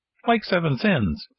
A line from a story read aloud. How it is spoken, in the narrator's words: said Pinocchio, still laughing